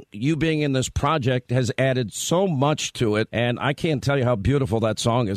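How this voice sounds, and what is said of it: Hoarse, strained voice. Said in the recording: “my voice is a little shot from screaming last night”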